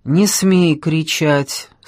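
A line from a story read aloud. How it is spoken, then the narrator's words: Stern. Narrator (Russian): строго проговорил Иван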